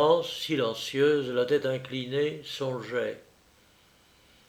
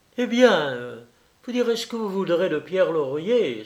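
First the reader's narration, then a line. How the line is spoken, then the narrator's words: Exclaiming. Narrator (French): s'écria-t-elle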